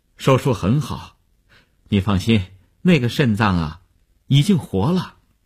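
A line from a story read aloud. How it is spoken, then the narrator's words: Relieved, smiling. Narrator (Chinese): 医生放心的笑笑说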